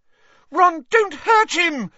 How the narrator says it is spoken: squealed Hermione

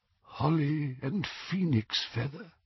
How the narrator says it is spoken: said Ollivander in a tremulous voice

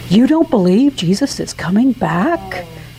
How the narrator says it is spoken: she whispered against my blasphemous eye roll

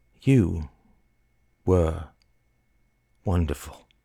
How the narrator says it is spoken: said Lawrence softly

